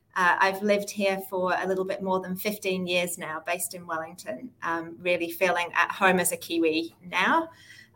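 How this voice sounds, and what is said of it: British English accent. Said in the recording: “You can maybe tell from the accent that I'm not actually from New Zealand. I'm originally from the UK.”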